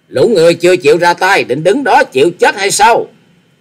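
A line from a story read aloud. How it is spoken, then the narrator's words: Leader's shout. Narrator (Vietnamese): Tiếng quát của giáo chủ của chúng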